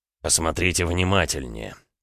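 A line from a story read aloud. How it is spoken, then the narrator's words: Through gritted teeth. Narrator (Russian): процедил Роман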